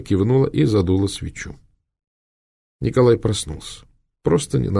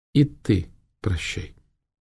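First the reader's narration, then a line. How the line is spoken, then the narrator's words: Quiet. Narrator (Russian): негромко добавила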